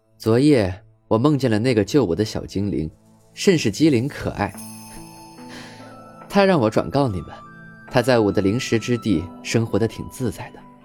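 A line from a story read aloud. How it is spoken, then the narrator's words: Cheerful chuckling elder. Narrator (Chinese): 族长笑呵呵地说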